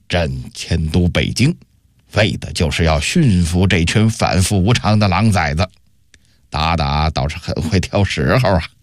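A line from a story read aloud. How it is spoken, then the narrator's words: Through gritted teeth, angry. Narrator (Chinese): 永乐帝咬牙切齿地说道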